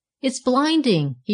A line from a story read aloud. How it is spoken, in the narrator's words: he cried